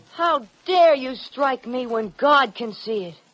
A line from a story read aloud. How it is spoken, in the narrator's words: cried